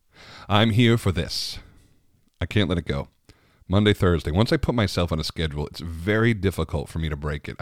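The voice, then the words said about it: Tired, worn-out voice. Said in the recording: “I poured a big scotch tonight ... after my marathon day. You can even hear it in my voice now. ... I'm spent”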